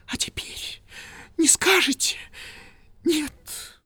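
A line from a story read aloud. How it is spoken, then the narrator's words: Broken breathless whisper. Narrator (Russian): прерывисто прошептала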